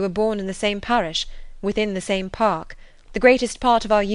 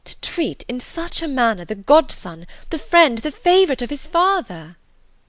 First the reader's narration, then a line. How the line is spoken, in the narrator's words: Elizabeth was again deep in thought, and after a time exclaimed